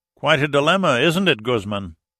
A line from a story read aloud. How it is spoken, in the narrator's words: Austin taunted, raising his voice to be heard